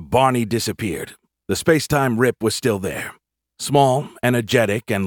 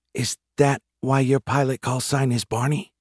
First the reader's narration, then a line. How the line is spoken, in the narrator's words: Jeremy leaned over to whisper to me